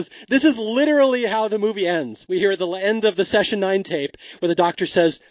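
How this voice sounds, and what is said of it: Usual voice. Nothing is said of it.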